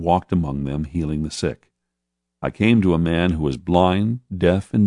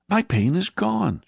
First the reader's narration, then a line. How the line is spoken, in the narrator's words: she cried